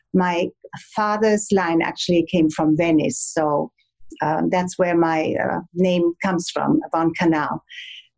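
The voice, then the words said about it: Light German accent. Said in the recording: “my little German accent. It's not a very heavy one, but I still have it”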